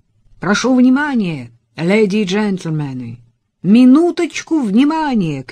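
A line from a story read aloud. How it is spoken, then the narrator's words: Shouted through megaphone. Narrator (Russian): крикнул он в мегафон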